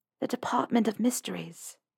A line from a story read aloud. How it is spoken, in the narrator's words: lowered her voice